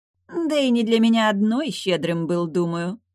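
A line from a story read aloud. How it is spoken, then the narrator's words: Chuckling. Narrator (Russian): хохотнула Рози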